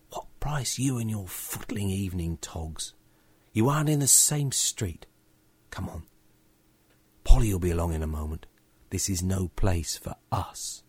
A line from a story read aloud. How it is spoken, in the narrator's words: I hissed to George